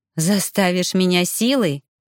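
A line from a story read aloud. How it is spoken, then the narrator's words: Snorting, getting angry. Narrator (Russian): фыркнула, начиная злиться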